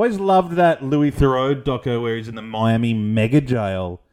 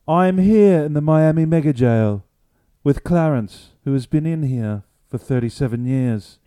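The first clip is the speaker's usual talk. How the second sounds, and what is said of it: Louis Theroux impression. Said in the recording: “how do you do a Louis Theroux? That's the hardest bloke ever to impersonate.”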